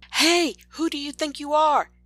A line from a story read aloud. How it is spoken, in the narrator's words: she shouts at Dita from the floor